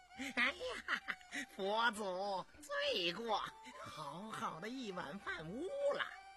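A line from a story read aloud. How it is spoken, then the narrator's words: Laughing. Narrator (Chinese): 姓殷笑道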